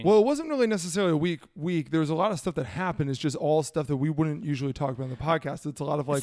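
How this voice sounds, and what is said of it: Hoarse, gravelly, partly lost voice. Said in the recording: “My voice is also a little bit gone ... You hear the gravel ... sound like I've been ... Like I'm a country boy ... Smoking unfiltered cigarettes I've been rolling for a long time”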